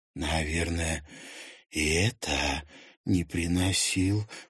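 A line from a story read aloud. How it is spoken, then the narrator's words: Whispered question. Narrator (Russian): шепотом спросила Луиза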